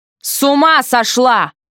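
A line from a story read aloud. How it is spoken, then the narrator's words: Angry bark. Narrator (Russian): рявкнул он с совершенно неожиданной злостью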